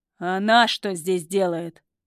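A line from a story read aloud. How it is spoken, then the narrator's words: Rude question. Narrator (Russian): грубо спрашивает у охранников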